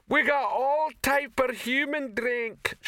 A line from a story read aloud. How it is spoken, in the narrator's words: shouted the female troll behind the bar